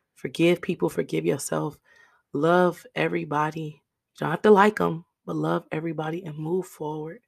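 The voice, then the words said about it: Raspy voice. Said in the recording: “raspy voice”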